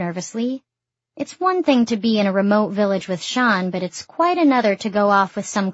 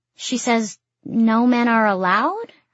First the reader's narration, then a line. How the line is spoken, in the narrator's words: Shan answers, but his voice goes up at the end as if in question